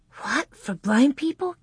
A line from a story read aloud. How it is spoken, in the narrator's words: Carrie whispered